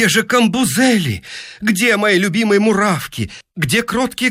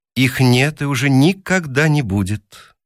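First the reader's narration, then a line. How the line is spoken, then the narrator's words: Calm machine voice. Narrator (Russian): спокойно ответила машина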